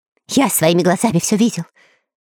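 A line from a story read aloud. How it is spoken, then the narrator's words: Rapid chatter. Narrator (Russian): затараторил Кутя-Плютя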